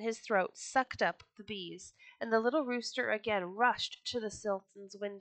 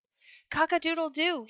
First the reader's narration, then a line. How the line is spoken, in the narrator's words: he cried